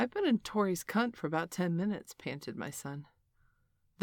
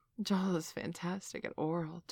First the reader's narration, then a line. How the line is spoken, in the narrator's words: Tori purred